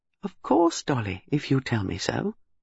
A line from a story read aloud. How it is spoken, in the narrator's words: Miss Marple said sweetly